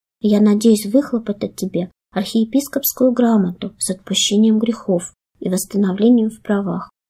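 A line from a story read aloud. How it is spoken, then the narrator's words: Calm reply, abbot. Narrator (Russian): спокойно ответил аббат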